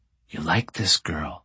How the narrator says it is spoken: she whispers

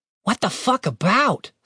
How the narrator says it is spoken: said Tim, still panting

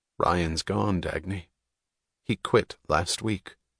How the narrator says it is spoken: Eddie said, his voice as even as hers

